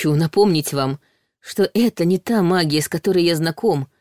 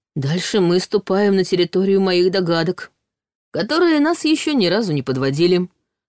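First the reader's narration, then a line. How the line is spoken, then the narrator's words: Smirking snort. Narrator (Russian): хмыкнул Ваня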